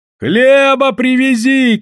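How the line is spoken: Shouting from a barge. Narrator (Russian): кричали с баржи

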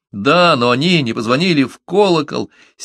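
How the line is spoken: Indignant shout. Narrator (Russian): с негодованием крикнул Джонс

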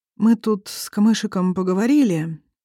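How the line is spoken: Hesitant start. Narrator (Russian): неуверенно начинает

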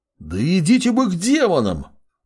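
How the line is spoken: Young man roaring. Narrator (Russian): Взревел парень

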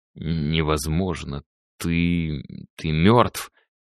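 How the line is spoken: Frightened whisper. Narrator (Russian): прошептал Стас побелевшими губами

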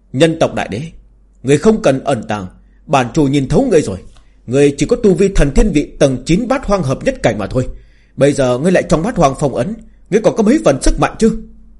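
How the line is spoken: Arrogant loud laughter. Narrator (Vietnamese): Tà chủ cuồng vọng cười lớn

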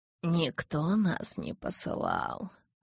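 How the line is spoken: Muffled rustling reply. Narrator (Russian): глухо прошелестел гость Карлайлу в ответ

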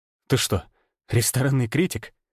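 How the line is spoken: Mumble. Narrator (Russian): пробормотал я

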